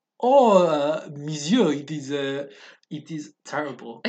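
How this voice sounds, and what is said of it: Poor put-on French accent. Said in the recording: “How's your French accent? ... It is terrible.”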